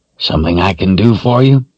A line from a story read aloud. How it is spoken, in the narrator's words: the man asked in a dry voice